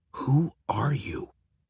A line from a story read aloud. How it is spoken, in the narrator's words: I whisper to him